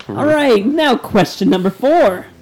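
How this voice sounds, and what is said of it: Game show host voice. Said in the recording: “That's my game show voice.”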